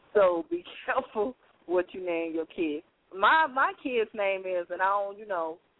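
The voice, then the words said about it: Slight country accent. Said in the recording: “I have a little country accent ... my little country accent”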